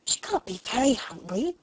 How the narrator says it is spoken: whispered Lavinia

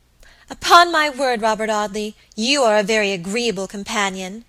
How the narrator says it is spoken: exclaimed Alicia at length, her rather limited stock of patience quite exhausted

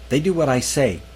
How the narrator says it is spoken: Manning snapped

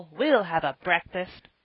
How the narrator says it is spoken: cried Joel

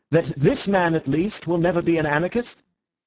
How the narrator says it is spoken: called out Ratcliffe to the French colonel

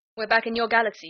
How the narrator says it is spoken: he said

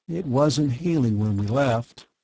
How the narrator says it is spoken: Bart said wearily

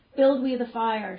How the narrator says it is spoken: shouted his followers

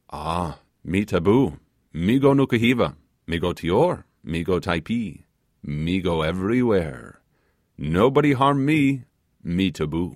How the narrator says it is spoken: with his strange vivacity, exclaimed

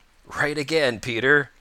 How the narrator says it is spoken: laughed Old Mother Nature

